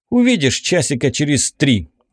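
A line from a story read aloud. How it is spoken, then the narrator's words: Snapping. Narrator (Russian): огрызнулся я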